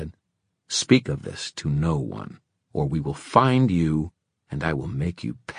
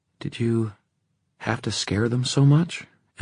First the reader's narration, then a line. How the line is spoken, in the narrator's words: Emma said, a little hesitantly